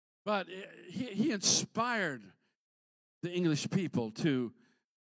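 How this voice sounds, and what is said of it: Usual voice. Nothing is said of it.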